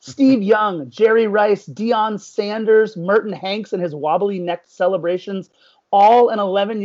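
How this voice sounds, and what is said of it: Usual voice. Nothing is said of it.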